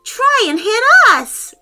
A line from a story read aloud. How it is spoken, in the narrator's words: Olivia yelled